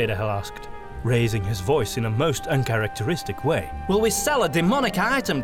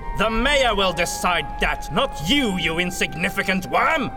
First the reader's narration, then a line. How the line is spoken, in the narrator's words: Von Baumeister bellowed